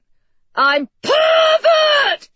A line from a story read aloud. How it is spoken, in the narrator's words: she screamed